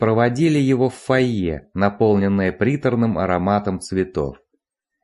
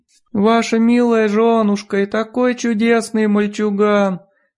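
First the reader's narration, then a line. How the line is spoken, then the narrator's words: High mewing wail. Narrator (Russian): завыла высоким, мяукающим голосом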